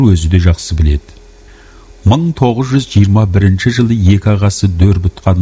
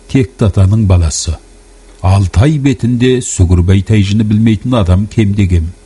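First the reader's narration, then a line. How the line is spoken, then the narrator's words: With a slight smiling laugh. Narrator (Kazakh): деп Оспан сәл жымиып күліп алды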